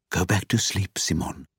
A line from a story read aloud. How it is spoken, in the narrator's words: whispers